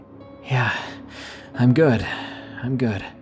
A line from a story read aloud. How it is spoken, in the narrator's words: wheezed out